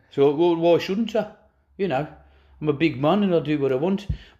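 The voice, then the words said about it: Poor put-on South African accent. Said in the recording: “Did he turn South African there, at the very end there? ... That was terrible for me.”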